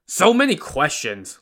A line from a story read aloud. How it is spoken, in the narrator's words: Lu Da said impatiently